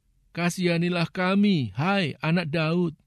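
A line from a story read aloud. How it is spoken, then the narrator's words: Pleading cry. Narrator (Indonesian): dua orang buta yang mengikuti dia sambil berseru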